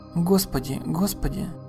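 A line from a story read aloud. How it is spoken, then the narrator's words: Boy whispering. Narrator (Russian): шептал паренек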